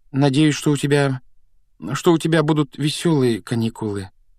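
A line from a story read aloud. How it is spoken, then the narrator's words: Hesitant, taken aback. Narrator (Russian): неуверенно выдавила Гермиона, явно пораженная нелюбезностью дяди Вернона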